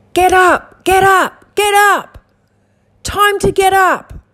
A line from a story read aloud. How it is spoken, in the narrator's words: screams at you, screams really closely in your ear and says